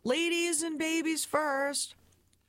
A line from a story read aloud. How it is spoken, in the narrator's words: My dad shouting